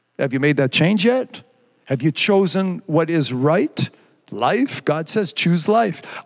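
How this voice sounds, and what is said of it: Quebec French-accented English. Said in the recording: “because I'm a Quebecer or because my accent's funny”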